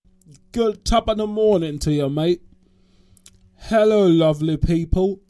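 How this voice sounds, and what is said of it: Put-on Cockney accent, unpolished. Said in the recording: “that's my Cockney accent. It's still being worked on.”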